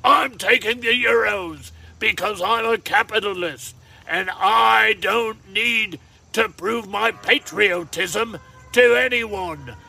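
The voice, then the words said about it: Put-on English accent. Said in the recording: “I'll switch to me British voice. ... An English accent, if you will.”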